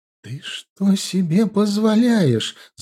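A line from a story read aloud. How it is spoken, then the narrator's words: Shrieking loudly. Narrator (Russian): завизжала она на весь подъезд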